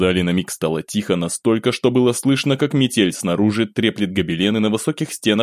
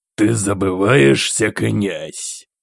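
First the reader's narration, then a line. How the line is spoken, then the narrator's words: Through gritted teeth. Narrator (Russian): Процедил сквозь зубы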